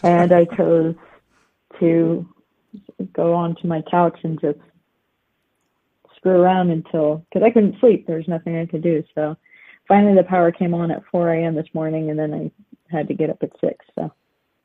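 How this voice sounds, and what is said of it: Tired, effortful voice. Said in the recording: “my voice is, when I'm tired, it's harder for me to talk”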